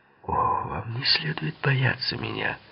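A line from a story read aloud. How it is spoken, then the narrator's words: Mumble. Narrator (Russian): пробормотал Литти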